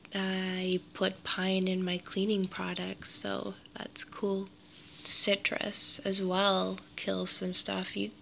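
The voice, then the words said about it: Hoarse, croaky voice. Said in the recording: “I have a frog in my throat. I'm getting over a cold”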